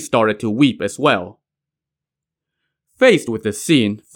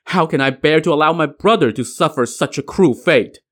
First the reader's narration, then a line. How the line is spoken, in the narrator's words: The two princes now cried bitterly